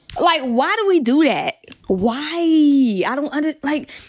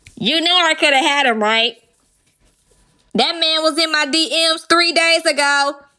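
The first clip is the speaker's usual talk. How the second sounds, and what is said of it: Loud megaphone-style voice. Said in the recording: “Let me do my megaphone voice.”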